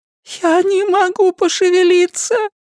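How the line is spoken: Sobbing, barely intelligible. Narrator (Russian): сказала с рыданием, так что я лишь с трудом уловил слова

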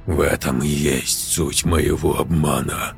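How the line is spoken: Hoarse stranger's voice. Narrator (Russian): прохрипел чужой голос

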